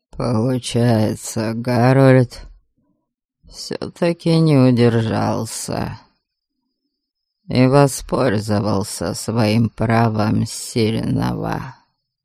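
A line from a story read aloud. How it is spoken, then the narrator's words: Thoughtful drawl. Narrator (Russian): задумчиво протянул Кейман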